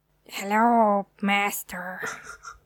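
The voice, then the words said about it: Igor-style evil assistant voice. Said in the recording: “That's a good impression. A nice little Igor.”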